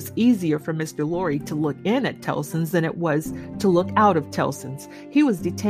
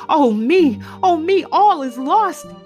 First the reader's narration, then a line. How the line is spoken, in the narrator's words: cried she